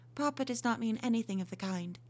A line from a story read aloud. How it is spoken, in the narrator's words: said, quite calmly